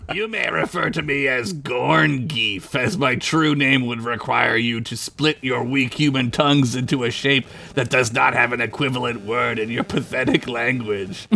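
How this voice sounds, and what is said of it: Gorn alien character voice. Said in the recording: “Gorn voice. ... I got to do a Gorn voice. I'm going to lose my voice.”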